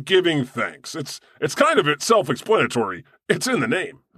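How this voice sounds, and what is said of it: Usual voice. Nothing is said of it.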